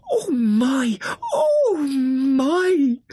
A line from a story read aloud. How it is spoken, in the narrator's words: The mole ... gasping